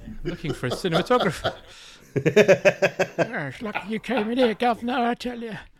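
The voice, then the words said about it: Stock character voice. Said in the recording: “That's a good voice. I've never heard you do that stock voice before. ... He sounds great.”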